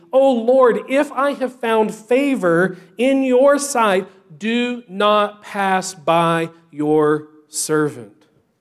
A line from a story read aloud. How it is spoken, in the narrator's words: he begins to plead